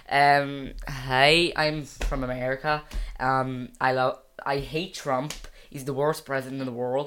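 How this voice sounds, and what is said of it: Put-on American accent. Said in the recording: “No, an American accent is this.”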